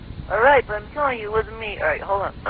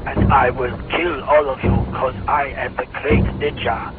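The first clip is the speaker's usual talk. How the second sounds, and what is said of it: Villain cartoon character voice. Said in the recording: “do your voice of the Shredder guy”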